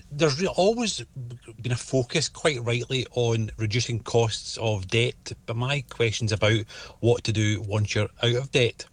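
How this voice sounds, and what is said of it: Scottish accent. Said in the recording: “a ... with a Scottish accent”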